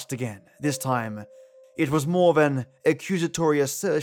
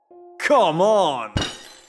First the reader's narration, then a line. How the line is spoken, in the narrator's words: I groaned